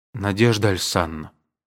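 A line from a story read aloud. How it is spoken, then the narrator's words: Dejected. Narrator (Russian): сказал он уныло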